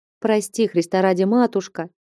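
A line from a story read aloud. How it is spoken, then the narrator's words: Barely audible pleading. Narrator (Russian): Едва слышно оправдывалась она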